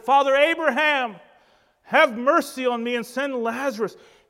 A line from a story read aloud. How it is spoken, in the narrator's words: He cried out and said